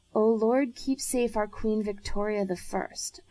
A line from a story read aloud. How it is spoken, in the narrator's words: Isaac murmured